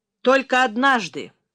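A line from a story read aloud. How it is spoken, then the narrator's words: Sad. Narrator (Russian): грустно проговорил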